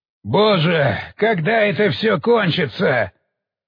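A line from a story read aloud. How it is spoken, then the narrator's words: Loud shout. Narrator (Russian): выкрикнул это так громко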